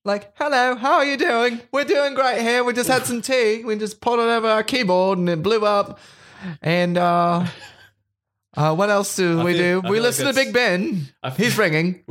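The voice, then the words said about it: Put-on English accent. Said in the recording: “talking in their accent, like English”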